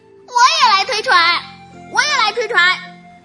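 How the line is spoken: Little duckling shouting. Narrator (Chinese): 推白羽毛船的小野鸭大声叫着

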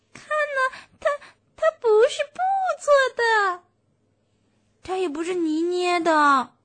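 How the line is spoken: Shrill doll voice. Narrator (Chinese): 布娃娃美美尖声尖气地说

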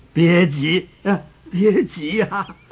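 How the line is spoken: Laughing, slow old voice. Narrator (Chinese): 老乞丐一边哈哈的大笑，一边慢吞吞地说

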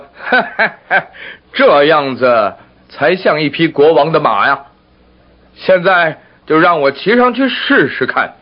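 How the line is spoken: King laughing heartily. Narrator (Chinese): 国王笑呵呵地说

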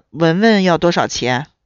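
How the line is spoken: Old man, sighing question. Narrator (Chinese): 山羊老汉叹了一口气，…问

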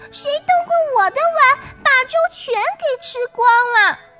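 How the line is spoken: Shrill squeaky little bear. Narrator (Chinese): 小熊 尖声尖气，叽叽叫

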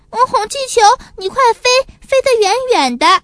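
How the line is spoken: Anxious, near tears. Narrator (Chinese): 小帕斯急得快哭了

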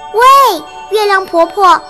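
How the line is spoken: Little bear calling out. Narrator (Chinese): 小熊向月亮婆婆叫着

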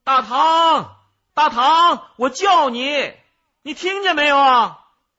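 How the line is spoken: Louder voice. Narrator (Chinese): 他的声音更大了

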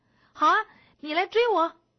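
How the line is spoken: Shouting. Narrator (Chinese): 星星经理喊

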